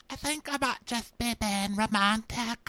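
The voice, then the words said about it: Imitated Real Housewives of Cheshire accent. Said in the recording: “I'd like to thank that Real Housewives of Cheshire for giving me her accent to use during this recap”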